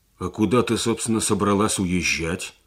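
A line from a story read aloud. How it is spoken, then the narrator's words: Angry, astonished question. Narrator (Russian): спросил Сергей сердито, поражаясь ее проницательности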